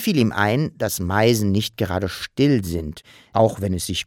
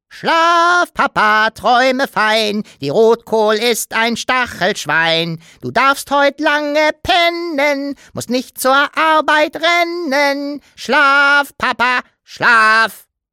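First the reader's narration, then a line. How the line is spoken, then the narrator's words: Sung quite loudly. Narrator (German): sang ziemlich laut in Herrn Taschenbiers Ohr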